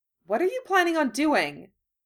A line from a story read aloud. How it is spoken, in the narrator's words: Hermione asked sharply